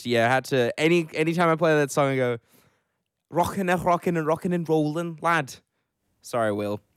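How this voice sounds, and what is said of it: Scouse accent. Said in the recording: “my beautiful Scouse accent ... not sure I call it beautiful”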